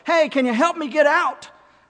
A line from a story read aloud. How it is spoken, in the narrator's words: the guy shouts up